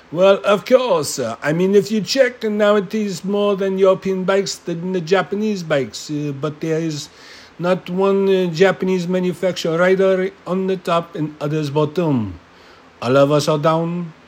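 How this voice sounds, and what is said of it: Poor put-on French accent. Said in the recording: “my French accent is fucking terrible tonight”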